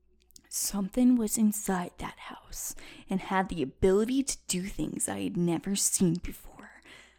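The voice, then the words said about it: Impression of Zach. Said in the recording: “It's a really good impression.”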